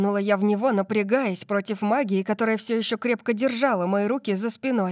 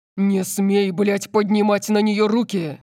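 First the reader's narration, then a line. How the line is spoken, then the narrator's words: Roared. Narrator (Russian): Проревел он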